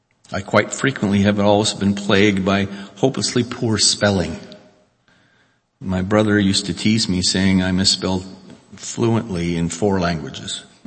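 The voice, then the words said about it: Unmistakable foreign accent. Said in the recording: “A foreigner like me will always have an unmistakable accent”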